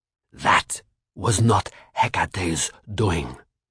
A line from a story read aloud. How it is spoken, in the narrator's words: Bastet growled suddenly, her accent thick, her voice beast-like